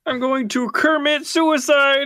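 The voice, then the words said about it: Kermit the Frog character voice. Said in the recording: “Is that fucking Kermit the Frog reel? ... That was a good impression,”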